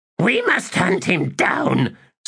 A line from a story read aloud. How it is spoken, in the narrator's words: snarled Pulley